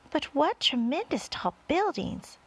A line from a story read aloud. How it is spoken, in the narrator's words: exclaimed the ladybug